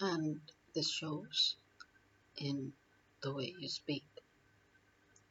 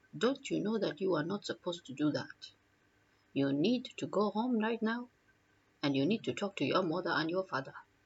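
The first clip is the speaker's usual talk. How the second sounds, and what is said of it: Put-on native accent. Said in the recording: “you may start off with the native accent.”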